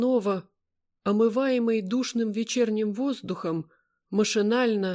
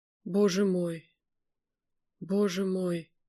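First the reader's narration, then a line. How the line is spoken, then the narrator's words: Bewildered desperate mutter. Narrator (Russian): совсем растерянно, отчаянно пробормотал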